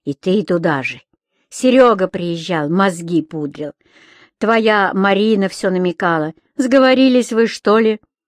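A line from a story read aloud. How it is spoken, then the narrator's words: Calm. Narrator (Russian): Ирина спокойно проговорила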